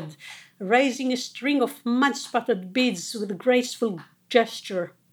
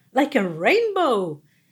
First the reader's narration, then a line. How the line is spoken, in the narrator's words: Leticia exclaimed